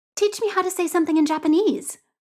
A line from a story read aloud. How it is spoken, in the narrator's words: Pichit says brightly